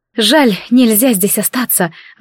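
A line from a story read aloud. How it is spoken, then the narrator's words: Sighed. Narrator (Russian): вздохнула рядом со мной Вита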